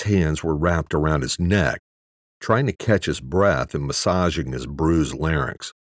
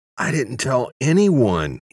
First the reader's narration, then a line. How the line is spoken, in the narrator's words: croaked